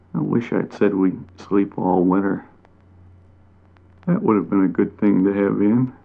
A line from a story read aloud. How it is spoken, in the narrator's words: The bat said to himself sleepily